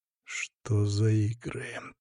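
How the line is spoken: Quiet menacing hiss. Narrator (Russian): тихо, но грозно прошипел я

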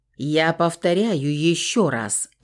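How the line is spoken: Growling. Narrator (Russian): рыкнул Фауст

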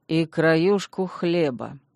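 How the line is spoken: Gloomy. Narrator (Russian): мрачно добавил Догант

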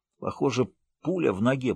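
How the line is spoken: Hoarse rasp. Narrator (Russian): прохрипел Отто

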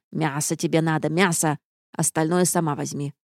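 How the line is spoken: Grumbled. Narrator (Russian): буркнула госпожа Шира

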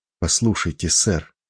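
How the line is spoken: Quiet insistent plea. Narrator (Russian): тихо, но настойчиво попросил

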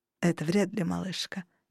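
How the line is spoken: Sighing. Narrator (Russian): вздохнул хранитель

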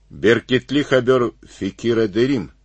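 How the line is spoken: Said, then pleased laugh. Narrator (Russian): сказал полковник и с удовольствием рассмеялся

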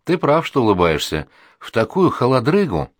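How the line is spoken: Glum. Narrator (Russian): говорю ему уныло

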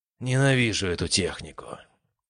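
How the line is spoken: Tired exhale. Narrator (Russian): устало выдохнул я

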